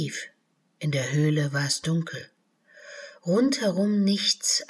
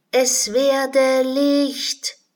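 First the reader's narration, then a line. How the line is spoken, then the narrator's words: Loud shout into cave. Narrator (German): rief Alice laut in die Höhle hinein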